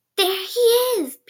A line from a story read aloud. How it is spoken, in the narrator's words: whispered